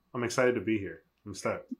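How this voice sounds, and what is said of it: Soft, subdued, unexcited delivery. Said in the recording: “You sound thrilled. ... This is very soft today. ... right now he's being very tame.”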